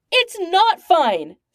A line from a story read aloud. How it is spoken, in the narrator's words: Stark yells, sounding on the edge of frantic